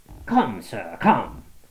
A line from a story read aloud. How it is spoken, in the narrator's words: cried Franklin